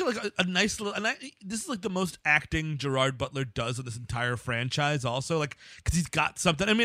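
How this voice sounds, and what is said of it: Usual voice. Nothing is said of it.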